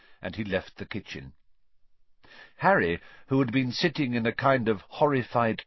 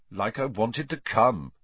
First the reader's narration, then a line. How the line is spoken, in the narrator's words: said Harry coldly